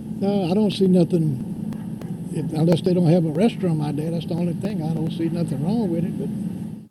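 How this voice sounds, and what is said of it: Southern drawl accent. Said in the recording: “you could tell by that southern drawl... Southern drawl... I love that accent.”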